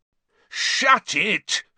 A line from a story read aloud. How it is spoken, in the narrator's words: Fred bellowed